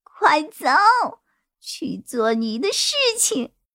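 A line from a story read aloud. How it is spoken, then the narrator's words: Sudden laugh, then scream. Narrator (Chinese): 女孩突然大笑，随即对我尖叫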